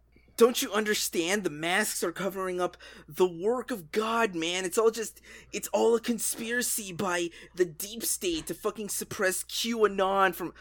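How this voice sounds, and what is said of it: Mocking voice of a conspiracy believer. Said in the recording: “impersonate those dumb fucks”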